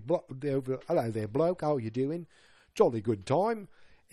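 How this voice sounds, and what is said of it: Exaggerated British accent. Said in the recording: “he's just going for the overly”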